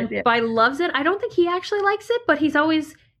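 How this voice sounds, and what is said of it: Usual voice. Nothing is said of it.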